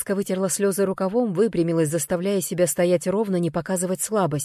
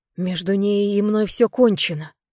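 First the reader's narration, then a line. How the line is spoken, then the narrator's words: Hoarse desperate strained. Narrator (Russian): выдавил хрипло, отчаянно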